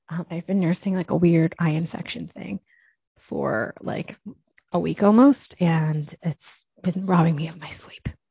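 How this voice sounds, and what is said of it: Tired-sounding voice. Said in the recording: “I sound tired, I am”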